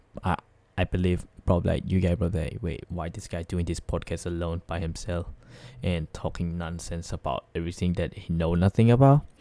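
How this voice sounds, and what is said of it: Sick-sounding voice. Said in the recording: “apologize for my voice, kind of a little bit sick today”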